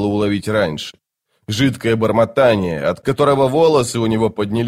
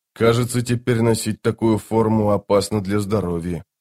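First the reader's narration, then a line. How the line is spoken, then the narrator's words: Muttering. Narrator (Russian): пробормотал он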